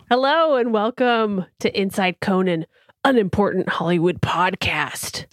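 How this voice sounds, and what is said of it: Dramatic movie trailer announcer voice. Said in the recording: “I was trying to do trailer voice for that. ... It's a good voice.”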